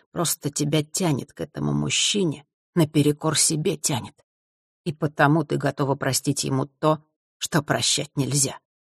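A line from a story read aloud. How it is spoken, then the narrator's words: Quiet inner whisper. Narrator (Russian): тихий голос внутри нашептывал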